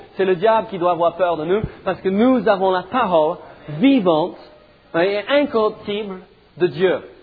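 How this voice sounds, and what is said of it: Slight British, French and American accent. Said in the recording (French): “J'ai un tout petit soupçon d'accent ... il y a un mélange donc de accent britannique, français ... j'ai piqué un peu de son accent aussi, parce que dans ma ville natale, on me demande d'où je viens aux États-Unis”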